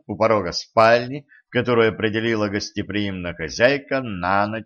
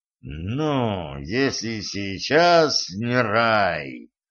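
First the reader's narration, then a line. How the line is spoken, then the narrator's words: Devil's vicious hiss. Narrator (Russian): злобно прошипел дьявол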